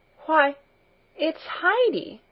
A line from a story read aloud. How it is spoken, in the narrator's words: she exclaimed